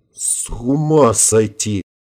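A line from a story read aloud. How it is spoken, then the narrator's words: Muttered in amazement. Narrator (Russian): расширенными от удивления глазами, пробормотал майор Родригес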